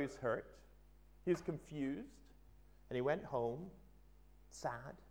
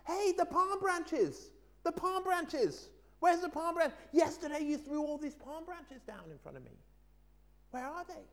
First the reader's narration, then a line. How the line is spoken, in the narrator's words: he shouted